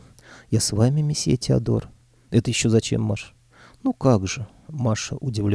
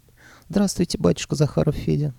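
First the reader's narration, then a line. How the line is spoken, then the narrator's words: Giggling. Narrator (Russian): хихикнула Варя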